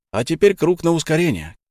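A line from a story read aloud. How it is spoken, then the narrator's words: Shout. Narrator (Russian): крикнул Илья друзьям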